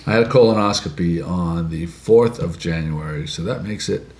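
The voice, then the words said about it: Rough, sick-sounding voice. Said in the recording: “my voice is horrible ... I've been sick for 9 days”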